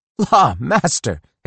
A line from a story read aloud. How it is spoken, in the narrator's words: exclaimed Ephraim